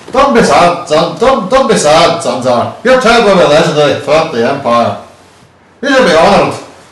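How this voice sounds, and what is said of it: Put-on Irish accent, sounding Scottish. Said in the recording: “what accent should I give him? We'll give him Irish... Why did you go horrible Scottish then?”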